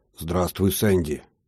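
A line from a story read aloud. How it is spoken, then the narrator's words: Hoarse. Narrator (Russian): хрипло произнес я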